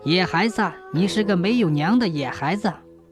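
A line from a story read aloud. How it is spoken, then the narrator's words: Children mocking. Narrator (Chinese): 学堂的孩子都嘲笑他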